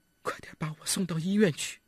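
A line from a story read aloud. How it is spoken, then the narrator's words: Weak, dying voice. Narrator (Chinese): 尚未死亡的刘俏声音微弱地对帅西洋说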